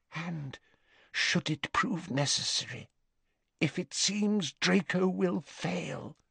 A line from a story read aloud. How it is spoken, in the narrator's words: whispered Narcissa